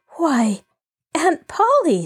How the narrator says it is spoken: she breathed

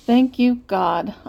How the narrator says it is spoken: I muttered

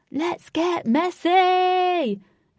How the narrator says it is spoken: He shouted

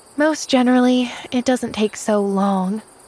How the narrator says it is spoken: sighed Pollyanna

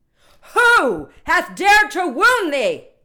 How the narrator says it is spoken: cried the giant

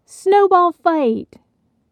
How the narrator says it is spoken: Benny yelled

